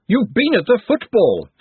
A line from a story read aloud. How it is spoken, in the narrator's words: snapped Glenda